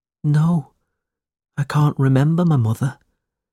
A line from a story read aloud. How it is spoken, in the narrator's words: Smike replied sadly